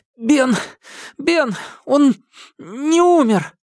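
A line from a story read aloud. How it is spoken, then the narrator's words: Breathless, strained. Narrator (Russian): с трудом выдавил Чак, пытаясь отдышаться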